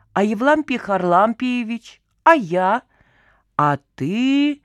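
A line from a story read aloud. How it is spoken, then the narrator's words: Meaningful drawl. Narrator (Russian): Многозначительно протянул Ватька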